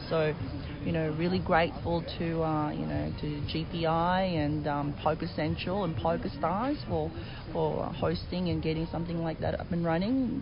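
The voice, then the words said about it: Australian accent. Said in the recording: “we can hear your Australian accent”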